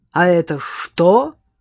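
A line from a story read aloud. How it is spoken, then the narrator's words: Booming bass of boss. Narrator (Russian): прогремел басом пузатый начальник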